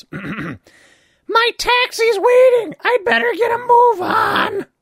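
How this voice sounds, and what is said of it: Imitated character voice. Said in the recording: “it just gave me an excuse to do the Jean voice.”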